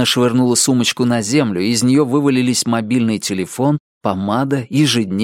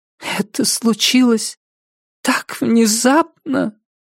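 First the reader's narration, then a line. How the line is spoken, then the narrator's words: Tragic whisper. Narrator (Russian): промолвила она трагическим шепотом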